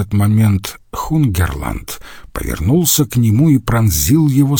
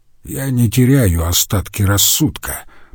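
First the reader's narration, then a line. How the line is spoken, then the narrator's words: Grumbled. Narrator (Russian): проворчал он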